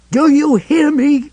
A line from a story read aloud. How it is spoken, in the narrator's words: He shouted